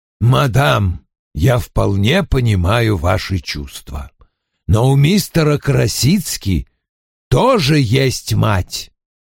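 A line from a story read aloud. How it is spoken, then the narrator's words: Low voice. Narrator (Russian): Низким голосом произнес Вульф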